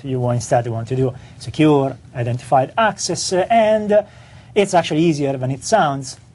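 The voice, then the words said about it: Strong foreign accent. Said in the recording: “my strong accent”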